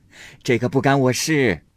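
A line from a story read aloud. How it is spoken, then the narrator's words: Deadpan laugh, old woman. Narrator (Chinese): 老太太呆着脸笑道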